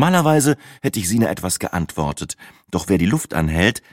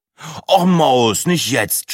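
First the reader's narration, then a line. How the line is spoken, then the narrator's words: Groaned. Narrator (German): stöhnte Breitling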